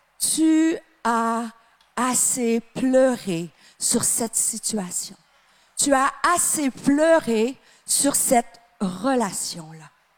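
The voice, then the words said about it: Slight Québécois French accent. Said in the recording (French): “une petite Canadienne avec un petit accent québécois”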